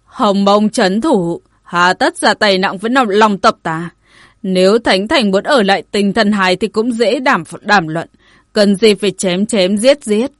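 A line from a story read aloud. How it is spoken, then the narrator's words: Raised voice. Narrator (Vietnamese): ông ta cất cao giọng nói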